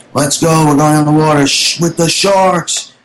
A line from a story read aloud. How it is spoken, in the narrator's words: started screaming